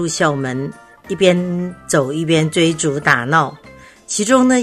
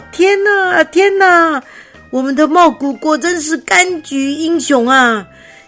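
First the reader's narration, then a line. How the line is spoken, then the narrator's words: Sung to nursery-rhyme tune. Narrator (Chinese): 齐成边说边唱《茂谷柑之歌》，就是用童谣《两只老虎》的旋律来颂唱的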